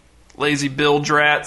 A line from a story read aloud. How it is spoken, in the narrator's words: said the man